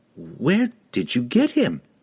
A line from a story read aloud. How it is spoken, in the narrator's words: Regis stuttered